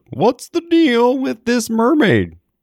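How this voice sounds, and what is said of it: Imitates another person's voice, poorly. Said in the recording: “sounds like a Seinfeld joke ... That was a terrible impression.”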